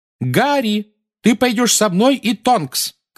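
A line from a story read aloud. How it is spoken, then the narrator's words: Shouting over shrieking. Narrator (Russian): крикнула миссис Уизли поверх нескончаемого визга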